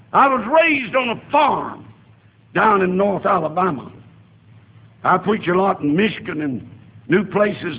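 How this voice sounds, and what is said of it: Southern American accent. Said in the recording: “I still have my southern accent ... He ain't no Yankee.”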